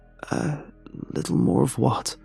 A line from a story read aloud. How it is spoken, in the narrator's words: croak out